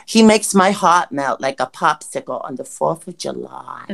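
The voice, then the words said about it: Speaks in a put-on accent. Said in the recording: “Is it because I did the accent? Is it because the accent?”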